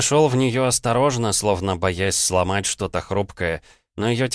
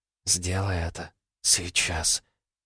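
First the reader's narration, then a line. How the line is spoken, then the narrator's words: Whisper. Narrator (Russian): прошептала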